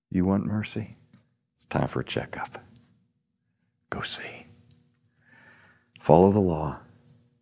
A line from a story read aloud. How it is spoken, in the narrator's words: as if Jesus was saying in his tender voice